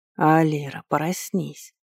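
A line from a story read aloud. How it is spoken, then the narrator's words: Constant whisper inside head. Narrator (Russian): Кто-то другой без остановки шептал прямо в моей голове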